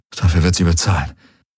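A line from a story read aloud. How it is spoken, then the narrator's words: Muttering to oneself. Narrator (German): murmelte Garland vor sich hin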